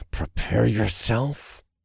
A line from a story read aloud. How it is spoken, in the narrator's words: said through clenched teeth